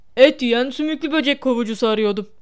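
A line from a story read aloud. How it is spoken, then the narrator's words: Grumbling. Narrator (Turkish): diye homurdandı Hagrid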